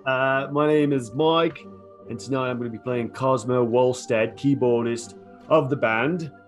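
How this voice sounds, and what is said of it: Put-on accent. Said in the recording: “I'm going to work out my accent all through the night.”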